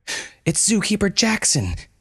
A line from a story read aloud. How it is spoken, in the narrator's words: yelled Malon